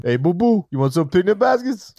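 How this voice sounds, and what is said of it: Good Yogi Bear cartoon voice. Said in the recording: “that was a really good Yogi impression”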